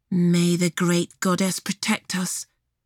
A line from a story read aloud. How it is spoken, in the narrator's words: Briar whispered